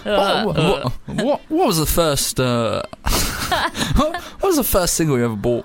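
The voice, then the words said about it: Steve Lamacq music-journalist impression. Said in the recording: “a sort of real music journalist voice ... trying to do a Steve Lamacq impression ... Oh, yeah, it's quite good.”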